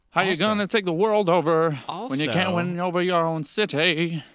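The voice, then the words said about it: Imitates another person's voice. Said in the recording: “great impersonation”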